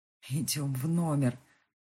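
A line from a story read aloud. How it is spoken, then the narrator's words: Pleading. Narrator (Russian): взмолился он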